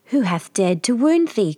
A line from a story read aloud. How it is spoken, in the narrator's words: cried the giant